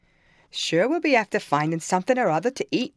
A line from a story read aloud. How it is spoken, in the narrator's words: exclaimed